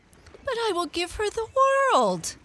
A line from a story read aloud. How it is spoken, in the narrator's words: cried the goldfish